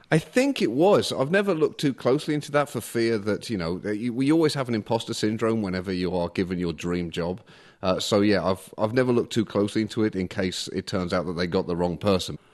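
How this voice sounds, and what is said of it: Mixed British Midlands accent, Liverpool twang. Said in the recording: “your Birmingham, your Midlands accent, is it a Brummie accent ... I have definitely a mongrel accent. My family are from Liverpool, so I have some twang there. I have a Midlands accent, and I was raised about an hour north of London. So my voice is a mess”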